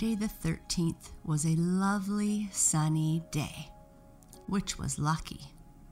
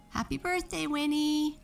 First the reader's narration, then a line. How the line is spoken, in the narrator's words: they shouted